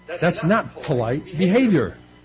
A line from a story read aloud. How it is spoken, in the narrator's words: Jessica, her mother, exclaimed